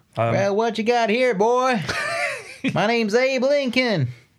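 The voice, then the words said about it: Put-on rustic country accent. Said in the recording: “I imagine he's got an accent that doesn't... It's uncanny. It's like Daniel Day-Lewis is in the room with us.”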